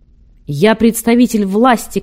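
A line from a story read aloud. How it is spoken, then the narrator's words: Shouted. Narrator (Russian): крикнул Матвей Бенционович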